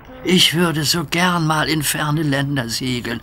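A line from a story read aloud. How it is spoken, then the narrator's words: Sighing. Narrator (German): seufzte Duck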